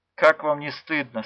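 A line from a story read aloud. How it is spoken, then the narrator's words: Quiet. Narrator (Russian): сказала она тихо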